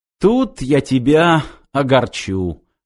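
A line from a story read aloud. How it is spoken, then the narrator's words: Sniper's snort. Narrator (Russian): хмыкнул снайпер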